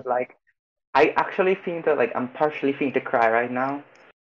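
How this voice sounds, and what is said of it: Trinidadian accent. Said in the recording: “you have a Trini accent”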